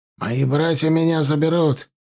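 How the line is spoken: Angry answer. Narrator (Russian): ответил он злобно

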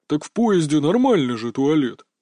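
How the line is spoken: Puzzled big man, deep voice. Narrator (Russian): непонимающе пробасил здоровяк из Златограда

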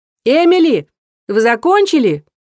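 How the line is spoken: Shouting. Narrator (Russian): прокричала она

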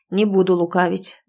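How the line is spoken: Sighing old healer. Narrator (Russian): вздохнул знахарь

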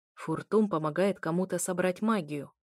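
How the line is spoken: Quiet growling voice. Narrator (Russian): раздался его негромкий, рычащий голос

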